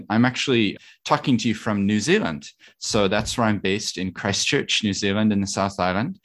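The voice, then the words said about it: Speaks with a noticeable accent. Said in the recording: “you can hear an accent.”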